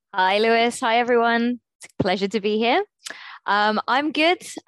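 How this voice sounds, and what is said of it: Congested, blocked-nose voice. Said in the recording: “I've got a little bit of a cold ... I'm just a little bit bunged up ... Maybe you've got a blocked nose.”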